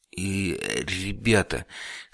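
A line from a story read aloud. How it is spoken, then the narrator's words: Stammering whisper. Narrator (Russian): слегка заикаясь, прошептал я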